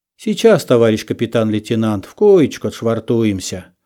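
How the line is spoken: Gentle voices, several speakers. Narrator (Russian): ласково говорили они

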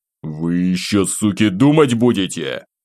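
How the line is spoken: Growl. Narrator (Russian): Рыкнул я

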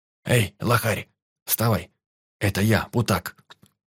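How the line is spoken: Barely audible whisper. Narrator (Russian): Прошептал еле слышно

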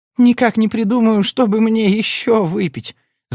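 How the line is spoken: Whining. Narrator (Russian): захныкала

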